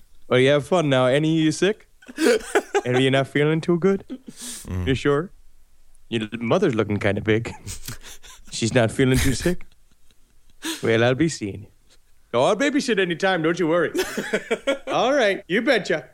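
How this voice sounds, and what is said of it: Wisconsin accent impression. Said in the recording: “your impression of a Wisconsin conversation, and you nailed it”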